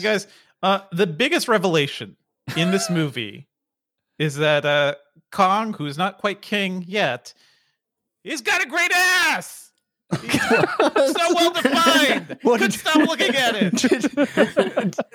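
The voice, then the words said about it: Imitates another person's voice. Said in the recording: “was that an Al Pacino impression?”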